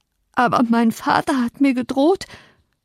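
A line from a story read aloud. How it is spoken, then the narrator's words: Panting. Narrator (German): keuchte er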